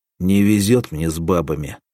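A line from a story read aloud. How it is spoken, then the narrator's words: Angry. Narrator (Russian): сказал сердито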